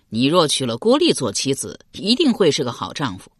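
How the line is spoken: Laughing. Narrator (Chinese): 刘玲笑道

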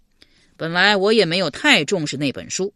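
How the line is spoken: Sighing. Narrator (Chinese): 刘玲叹道

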